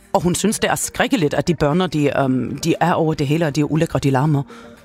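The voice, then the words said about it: Character voice with put-on accent. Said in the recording (Danish): “de der accent ... hun taler sådan her”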